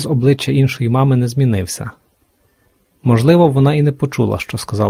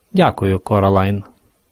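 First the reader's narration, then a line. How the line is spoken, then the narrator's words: Cold, eerie, disembodied female voice. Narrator (Ukrainian): холодно відповіла інша мама голосом, який виходив не з її рота, а з туману, з мгли, з будинку, з неба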